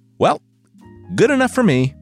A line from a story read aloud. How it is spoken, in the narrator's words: the prince yelled